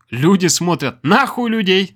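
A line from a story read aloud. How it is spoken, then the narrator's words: Laughing. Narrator (Russian): Рассмеялся он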